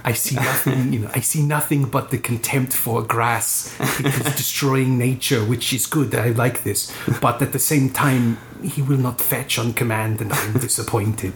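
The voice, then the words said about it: Werner Herzog impression. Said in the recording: “It's a good impression. ... I'm a great mimic, apparently.”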